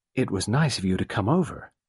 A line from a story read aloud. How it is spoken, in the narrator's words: Ginevra said softly